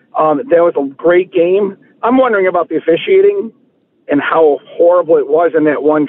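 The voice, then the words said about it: Slightly hoarse voice. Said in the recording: “I was at the game last night, and that's why I'm sounding a little hoarse here.”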